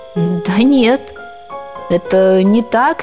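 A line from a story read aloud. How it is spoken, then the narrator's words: Uncertain objection. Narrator (Russian): неуверенно возразил он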